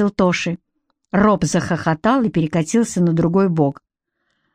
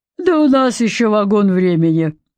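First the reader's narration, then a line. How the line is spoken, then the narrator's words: Deep bass. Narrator (Russian): пробасил Роб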